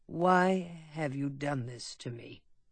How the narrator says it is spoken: asked bitterly

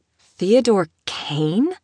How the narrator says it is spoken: She scoffed

